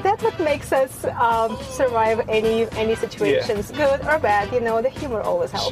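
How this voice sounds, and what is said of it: Foreign accent in English. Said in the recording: “I just love your accent.”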